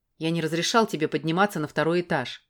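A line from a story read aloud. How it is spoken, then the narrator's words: Plain. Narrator (Russian): сказал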